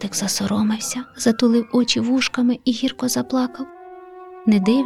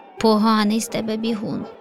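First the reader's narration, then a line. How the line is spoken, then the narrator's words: Laughing young leopard. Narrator (Ukrainian): Засміявся леопардик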